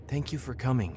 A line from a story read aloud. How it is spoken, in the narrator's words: she said, her voice almost a whisper